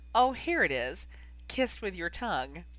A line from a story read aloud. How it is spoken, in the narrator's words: she giggled and said teasingly